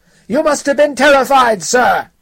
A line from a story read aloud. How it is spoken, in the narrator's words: shouted